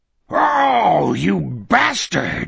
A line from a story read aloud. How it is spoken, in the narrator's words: Morgan Sloat bellowed